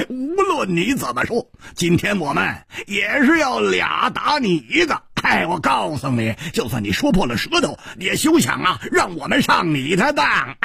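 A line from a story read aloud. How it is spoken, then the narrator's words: Loud laughter. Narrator (Chinese): 胡铁花大笑着说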